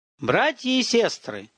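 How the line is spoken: Yelling in a quavering tenor. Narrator (Russian): завопил Слава дребезжащим тенором

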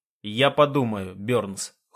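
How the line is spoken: Cold reply. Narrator (Russian): холодно отзываясь я

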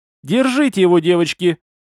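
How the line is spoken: Full-throated shout. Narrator (Russian): Во все горло закричала Тора

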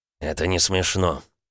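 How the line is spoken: Grumbled. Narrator (Russian): буркнул Дерешев

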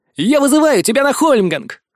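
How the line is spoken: Shouted. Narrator (Russian): крикнул Яр-Аму

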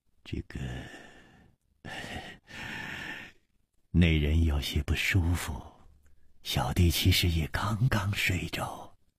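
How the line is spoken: Sighing. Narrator (Chinese): 李玉涵也叹了一口气说

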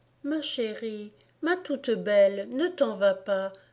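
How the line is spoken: Exclaiming. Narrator (French): s'écriait Mamie

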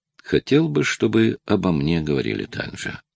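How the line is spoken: Sad, resigned. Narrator (Russian): Бен ... печально и как будто смирившись с неизбежным сказал

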